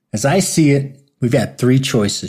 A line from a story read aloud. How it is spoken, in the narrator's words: shouted Doc over the commotion